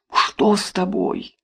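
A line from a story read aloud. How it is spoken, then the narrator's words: Boy whispering question. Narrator (Russian): спросил шепотом мальчик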